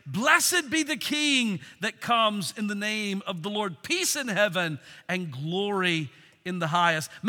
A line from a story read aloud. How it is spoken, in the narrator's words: began to shout, saying